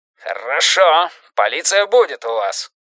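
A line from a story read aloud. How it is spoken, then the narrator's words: Growl. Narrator (Russian): зарычал Драм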